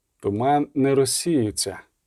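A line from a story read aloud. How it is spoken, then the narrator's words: Quiet. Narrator (Ukrainian): тихо сказав Геральт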